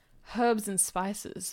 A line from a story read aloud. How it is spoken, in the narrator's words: muttered Detective Harlan Sanders